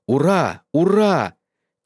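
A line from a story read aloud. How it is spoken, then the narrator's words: Disbelieving shout. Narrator (Russian): крикнул не веривший своим глазам Джонсон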